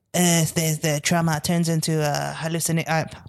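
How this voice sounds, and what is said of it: Old French woman's voice. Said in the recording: “that evil old French lady is like ... Why am I doing the voice?”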